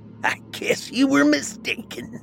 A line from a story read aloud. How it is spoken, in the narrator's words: cackled